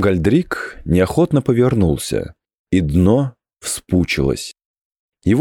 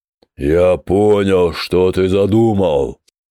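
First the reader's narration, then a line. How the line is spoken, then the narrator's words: Thundering voice. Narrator (Russian): прогремел Гламгальдрик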